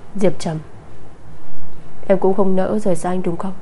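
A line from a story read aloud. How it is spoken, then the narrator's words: Soft mocking laugh. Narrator (Vietnamese): Anh cười khẽ, tiếng cười mang theo hàm ý châm chọc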